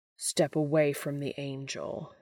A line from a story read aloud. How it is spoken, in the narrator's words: he growls